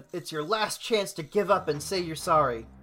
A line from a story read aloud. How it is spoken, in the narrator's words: Goku shouts to Omega